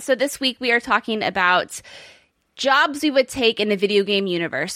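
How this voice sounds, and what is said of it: Hoarse, failing voice. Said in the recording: “losing my voice ... recovering from bronchitis”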